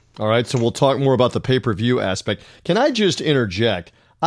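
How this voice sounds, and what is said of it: Southern American accent. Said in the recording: “I bring across the Southern hick accent, if you will”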